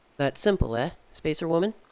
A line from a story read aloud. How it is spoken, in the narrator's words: said Parvo